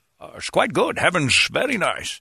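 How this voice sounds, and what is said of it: Imitates another person's voice. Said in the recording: “You got Connery in here with me. How you doing, Sean?”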